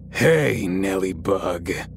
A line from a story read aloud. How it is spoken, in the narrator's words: I heard in a deep, gravelly voice